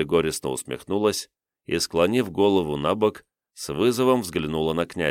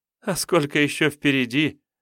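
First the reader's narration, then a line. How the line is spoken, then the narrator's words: Sudden laugh from maiden. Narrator (Russian): Неожиданно рассмеялась дева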